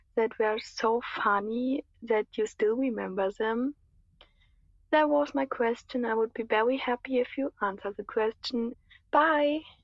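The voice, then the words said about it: German-sounding accent, pleasant voice. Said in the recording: “What a wonderful voice. ... I think she's probably from Germany or Austria or Switzerland, some Germanic-y influenced place. ... Lovely accent.”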